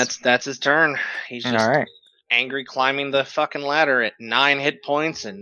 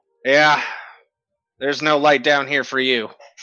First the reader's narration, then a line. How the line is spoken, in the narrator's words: Doldrin starts angrily climbing up and goes